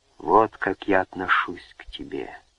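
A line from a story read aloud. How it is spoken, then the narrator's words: Voice hoarse with emotion. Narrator (Russian): хриплым от волнения голосом сказал он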